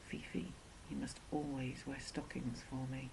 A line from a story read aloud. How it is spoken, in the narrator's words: he whispered